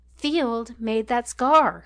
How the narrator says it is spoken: repeated Marriott at length in a louder voice

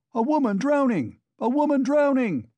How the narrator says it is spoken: shouted dozens of voices

